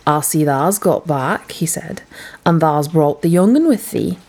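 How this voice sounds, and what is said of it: Rough, good-natured Yorkshire accent. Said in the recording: “spoke to Mrs. Medlock in a rough, good-natured way, Mary found out afterwards was Yorkshire”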